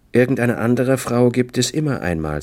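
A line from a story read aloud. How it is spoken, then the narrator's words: Calm. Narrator (German): sagte ruhig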